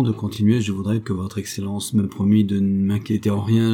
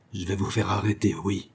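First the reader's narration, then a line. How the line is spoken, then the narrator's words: Hissed. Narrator (French): siffla M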